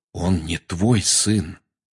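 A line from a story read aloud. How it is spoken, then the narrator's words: Quiet. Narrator (Russian): тихо сказал Сириус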